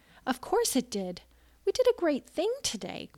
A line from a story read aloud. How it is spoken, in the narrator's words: Quirk exclaimed